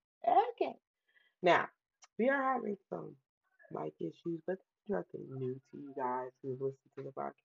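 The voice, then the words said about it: Raspy voice. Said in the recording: “my voice is still a little raspy ... I genuinely generally have a raspy voice ... I still have a little bit of cold in me ... raspy voice”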